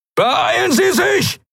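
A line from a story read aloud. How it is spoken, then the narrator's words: Shout. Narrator (German): schrie Telios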